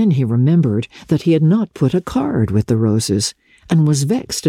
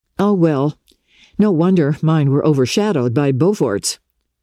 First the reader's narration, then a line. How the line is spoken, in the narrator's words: said Archer irritably